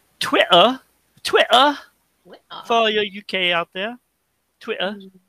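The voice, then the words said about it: Bad put-on British accent. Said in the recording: “That's a really bad impression of a British accent”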